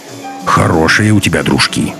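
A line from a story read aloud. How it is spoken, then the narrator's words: Grumbled. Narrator (Russian): проворчал Носов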